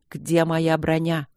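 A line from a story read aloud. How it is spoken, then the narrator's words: Wheezing warrior calling for help. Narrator (Russian): Воин сипел, стараясь позвать на помощь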